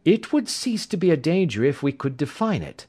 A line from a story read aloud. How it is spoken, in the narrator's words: said he